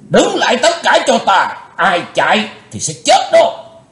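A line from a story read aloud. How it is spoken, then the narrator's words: Loud shout. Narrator (Vietnamese): Lão cục tài quát lớn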